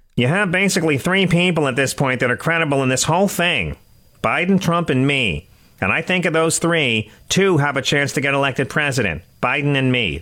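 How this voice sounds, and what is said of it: Imitates another person's voice. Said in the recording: “my Ron DeSantis. I want to get into character ... Do you like my impression ... I kind of have to go deep for it ... how much he does sound like Bert from Sesame Street ... it's also my Laura Ingram”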